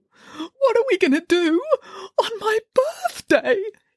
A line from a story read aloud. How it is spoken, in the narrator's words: He burst into loud wailing sobs